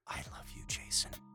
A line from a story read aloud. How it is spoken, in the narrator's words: Scott whispered